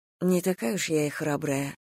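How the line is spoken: Awkward mumble. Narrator (Russian): пробормотала, внезапно почувствовав себя крайне неловко

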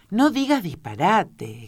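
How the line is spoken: Bolder exclamation. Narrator (Spanish): exclamó Alicia un poco más audaz

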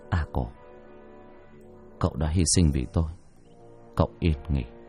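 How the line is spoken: Muttered. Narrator (Vietnamese): Thành lẩm bẩm

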